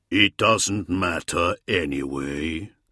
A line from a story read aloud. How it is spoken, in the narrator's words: rumbled a voice